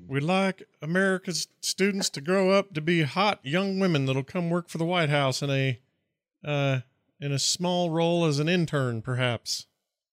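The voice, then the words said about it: Imitates another person's voice. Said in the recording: “I can almost hear him say it... I'm not going to do an impression... try to do an impression... It's not bad.”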